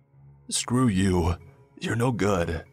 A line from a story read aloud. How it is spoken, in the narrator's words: started yelling